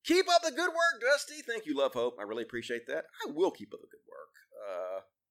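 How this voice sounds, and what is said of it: Southern American accent. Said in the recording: “I talk with a southern accent”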